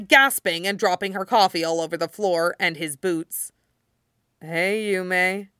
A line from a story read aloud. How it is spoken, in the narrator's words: he mumbled, shifting just enough to hurt and dully hoping the boxes didn't collapse underneath him